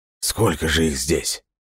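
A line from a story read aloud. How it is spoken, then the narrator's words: Horrified breathless exhale. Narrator (Russian): выдохнул Джордж Уилсон, в ужасе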